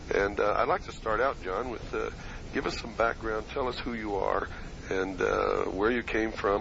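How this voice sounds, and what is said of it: Voice in poor condition. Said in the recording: “As you can hear, my voice is not too good”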